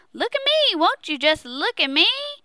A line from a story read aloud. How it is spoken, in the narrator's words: Pleased, whooped and hollered